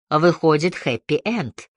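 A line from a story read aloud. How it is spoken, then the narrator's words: Snort. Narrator (Russian): хмыкнул Лёкин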